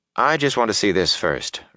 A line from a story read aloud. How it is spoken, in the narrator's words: Rand said